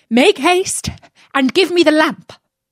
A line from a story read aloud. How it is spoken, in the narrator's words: The magician cried out